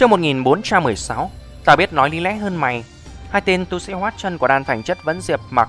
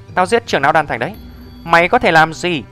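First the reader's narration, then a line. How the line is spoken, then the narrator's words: Cold. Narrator (Vietnamese): Diệp Mặc lạnh lùng nói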